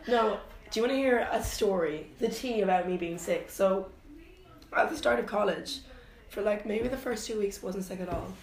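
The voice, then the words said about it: Husky, fading voice. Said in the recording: “I'm losing my voice and coughing ... You got like the sexy husky thing going on.”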